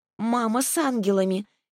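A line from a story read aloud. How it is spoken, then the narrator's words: Soft babbling. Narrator (Russian): мягко пролепетала она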